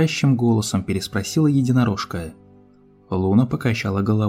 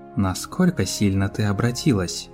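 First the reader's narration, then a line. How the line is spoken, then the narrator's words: Dry explanation. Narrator (Russian): сухо пояснила принцесса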